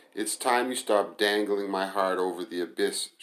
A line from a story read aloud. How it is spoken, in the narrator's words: she replied angrily